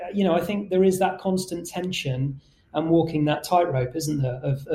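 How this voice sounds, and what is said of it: Usual voice. Nothing is said of it.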